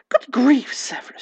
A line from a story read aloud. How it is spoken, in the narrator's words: she gasped